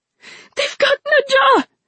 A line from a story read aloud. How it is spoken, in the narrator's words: she screamed